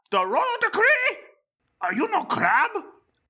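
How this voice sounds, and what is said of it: Silly crab character accent. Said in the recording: “Is this a crab accent?”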